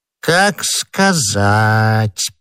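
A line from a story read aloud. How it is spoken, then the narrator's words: Drawled. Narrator (Russian): протянул Бонасье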